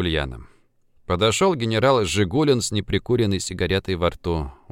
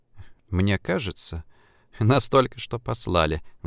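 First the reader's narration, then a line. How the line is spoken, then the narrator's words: Sighing. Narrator (Russian): вздохнула Ульяна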